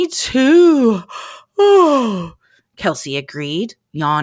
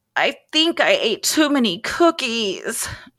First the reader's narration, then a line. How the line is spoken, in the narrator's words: Charlie groaned